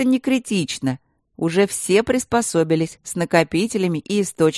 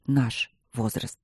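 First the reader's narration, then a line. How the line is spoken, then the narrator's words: Quiet. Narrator (Russian): добавил он тихо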